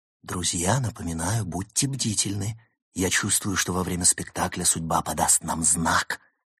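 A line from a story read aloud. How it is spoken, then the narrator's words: Loud whisper. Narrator (Russian): громко прошептал Улис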